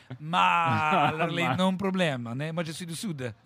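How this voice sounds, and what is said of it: Exaggerated put-on Italian accent. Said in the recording (French): “un accent italien incroyable”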